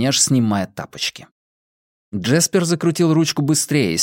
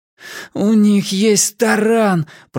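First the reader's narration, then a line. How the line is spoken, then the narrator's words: Groaning. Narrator (Russian): простонал Уайлен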